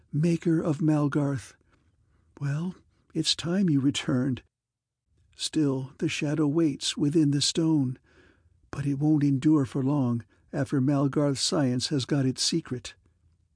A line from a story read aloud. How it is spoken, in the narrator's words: she breathed